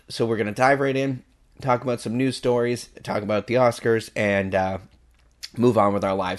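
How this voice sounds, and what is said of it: Strained, failing voice. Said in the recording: “I am losing my voice ... before my voice goes completely ... hopefully this won't be too painful on your ears”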